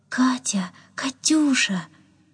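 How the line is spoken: Tender calling. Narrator (Russian): ласково звал

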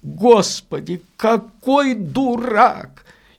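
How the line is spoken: Quavering laughter. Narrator (Russian): И начал смеяться немного дребезжащим смехом

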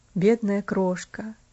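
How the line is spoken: Muttering. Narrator (Russian): пробормотал он опять

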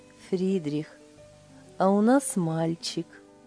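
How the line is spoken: Blissful, smiling. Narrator (Russian): Блаженно улыбаясь, Лиля сказала

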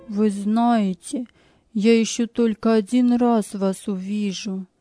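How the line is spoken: Sad. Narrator (Russian): сказал он печально

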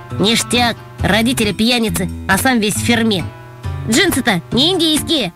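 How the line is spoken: Snide, young boy. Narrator (Russian): Какой-то незнакомый пацаненок ехидно заметил

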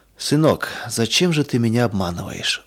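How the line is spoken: Sad quiet question. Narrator (Russian): вдруг спросил отец грустно и тихо

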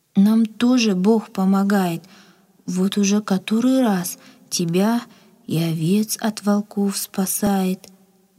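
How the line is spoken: Thoughtful. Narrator (Russian): задумчиво ответила Надя

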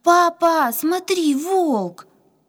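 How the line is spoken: Frightened trembling scream. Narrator (Russian): Катя задрожав от страха, закричала

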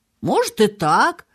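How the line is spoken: Thoughtful, nurse. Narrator (Russian): задумчиво проговорила сиделка

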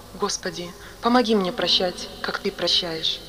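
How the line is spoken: Quiet. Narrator (Russian): тихо сказал

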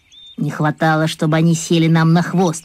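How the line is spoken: Grumbling. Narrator (Russian): проворчал Вася

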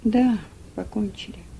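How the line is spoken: Thoughtful. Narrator (Russian): в раздумье проговорил мистер Шельби

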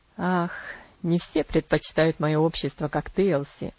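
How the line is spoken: Laughing. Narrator (Russian): засмеялся он

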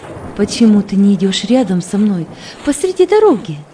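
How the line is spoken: Plain. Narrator (Russian): спросила сестра

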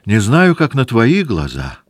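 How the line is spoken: Joyful princess's reply. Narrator (Russian): отвечала радостно княжна

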